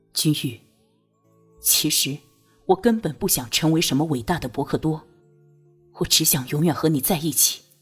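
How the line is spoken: Low, deeply stirred voice. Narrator (Chinese): 托桑心里火一般的激荡，低声道

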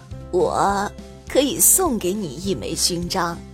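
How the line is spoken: Muttering to himself. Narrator (Chinese): 喃喃自语的说道

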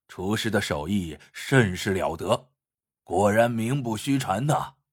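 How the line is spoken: Admiring. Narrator (Chinese): 鲁生赞叹道

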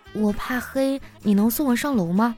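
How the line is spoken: Quiet. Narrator (Chinese): 我就小声的对他说

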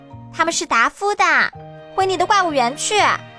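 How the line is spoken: Shouting. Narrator (Chinese): 黑衣公主嚷道

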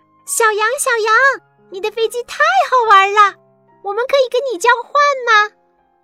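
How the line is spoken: Excited group shouting. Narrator (Chinese): 伙伴们看到了他的飞机，都兴奋地冲着喊道

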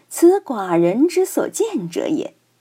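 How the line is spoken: Laughing. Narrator (Chinese): 桓公然而笑曰

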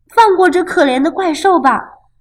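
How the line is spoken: Shouting. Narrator (Chinese): 他叫道

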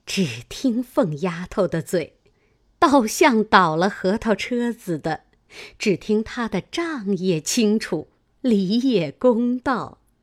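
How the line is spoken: Laughing. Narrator (Chinese): 薛姨妈笑道

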